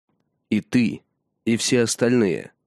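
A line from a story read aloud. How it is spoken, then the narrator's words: Plain. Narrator (Russian): сказал Матхар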